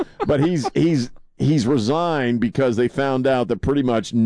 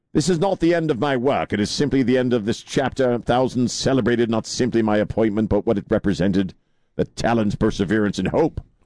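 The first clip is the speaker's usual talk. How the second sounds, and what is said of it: Reads aloud in a put-on accent. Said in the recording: “Why do you have that accent? He didn't talk that way. ... It just sounds funny. He's Cambridge.”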